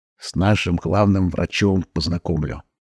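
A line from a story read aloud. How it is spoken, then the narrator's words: Whisper. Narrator (Russian): прошептал Никитич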